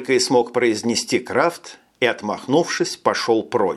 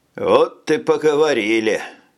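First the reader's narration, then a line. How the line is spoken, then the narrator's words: Grumbling. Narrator (Russian): пробурчал Джек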